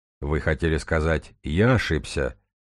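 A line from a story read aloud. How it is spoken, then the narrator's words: Even voice. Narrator (Russian): ровным голосом произнес математик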